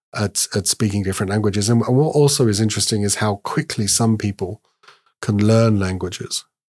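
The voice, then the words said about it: British accent. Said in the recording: “as you can probably tell from my accent, British”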